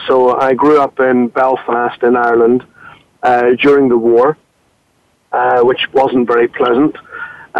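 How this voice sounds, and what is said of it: Northern Irish accent. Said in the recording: “I'm not English, as you can probably tell from my accent.”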